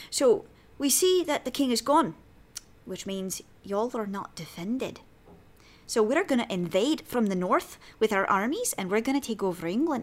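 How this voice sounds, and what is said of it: Put-on Scottish accent. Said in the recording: “Let's see if I can get a Scottish accent. There we go. Yeah, that's more of a Scot.”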